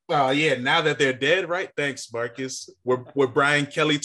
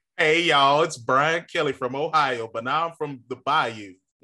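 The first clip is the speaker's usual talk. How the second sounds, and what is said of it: Put-on Southern accent. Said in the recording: “With a new Southern accent”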